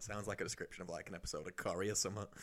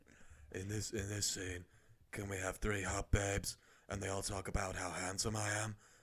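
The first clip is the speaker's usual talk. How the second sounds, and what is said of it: Imitates another person's voice. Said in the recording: “doing my Vin Diesel voice”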